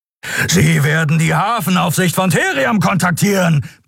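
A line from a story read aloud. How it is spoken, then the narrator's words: Roared. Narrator (German): brüllte Kero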